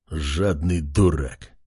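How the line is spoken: Growled. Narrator (Russian): прорычал лорд

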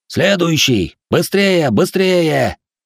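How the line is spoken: Annoyed official shouting. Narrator (Russian): недовольно прокричал чиновник

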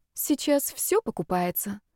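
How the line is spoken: Pitying sigh. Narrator (Russian): вздохнула Женя с жалостью

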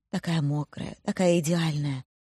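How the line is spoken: Murmuring. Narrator (Russian): бормочет

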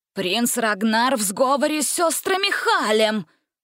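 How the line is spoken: Exclaiming. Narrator (Russian): воскликнула агент мачеха

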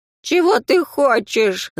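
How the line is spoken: Old man's whimper. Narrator (Russian): захныкал по-стариковски Хритон Романович

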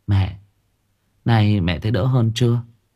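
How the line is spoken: Gentle call. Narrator (Vietnamese): Tuyến khẽ gọi

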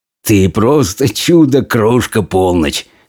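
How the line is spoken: Soldier laughing. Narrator (Russian): смеялся солдат

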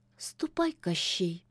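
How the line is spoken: Quiet old woman. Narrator (Russian): тихо молвила яга

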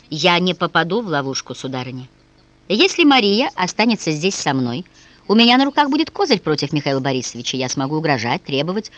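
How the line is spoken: Firm voice. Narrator (Russian): твердым голосом Седов произнес

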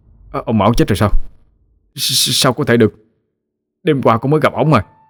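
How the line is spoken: Shocked stammering. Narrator (Vietnamese): Anh Lâm thất kinh mà lắp bắp

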